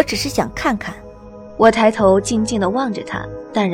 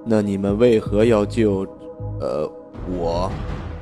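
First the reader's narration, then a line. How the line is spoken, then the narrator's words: Deep, heavy question. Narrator (Chinese): 沉声问道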